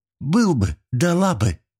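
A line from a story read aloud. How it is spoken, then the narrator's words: Exclamation. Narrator (Russian): воскликнула Новикова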